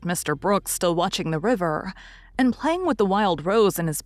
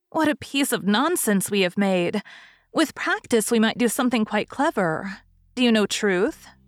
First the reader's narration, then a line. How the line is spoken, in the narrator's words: asked Sally when they had laughed over their story